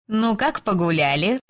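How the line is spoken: Snide neighbor's question. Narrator (Russian): ехидно осведомилась соседка

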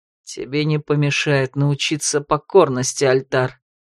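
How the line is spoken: Cold, through gritted teeth. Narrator (Russian): холодно процедил сквозь зубы Влад

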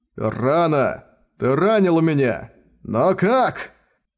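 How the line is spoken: Hoarse yell. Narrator (Russian): Хрипло завопил

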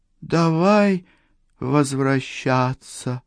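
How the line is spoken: Too calm. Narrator (Russian): слова Сатоко прозвучали слишком спокойно

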